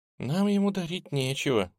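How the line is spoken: Quiet girl's voice. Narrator (Russian): тихо сказала девушка

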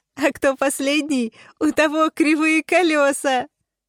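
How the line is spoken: Laughing. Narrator (Russian): засмеялась Вспышка

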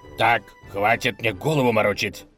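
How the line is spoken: Angry bark. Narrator (Russian): рявкнул разгневанный князь

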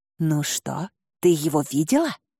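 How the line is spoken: Conspiratorial whispered question. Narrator (Russian): заговорщицким шепотом спросила она

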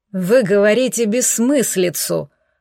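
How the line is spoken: Groaning. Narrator (Russian): простонал советник

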